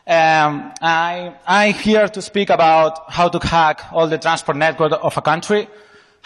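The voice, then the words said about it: Spanish accent. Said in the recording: “I'm from Spain. My accent is not the best.”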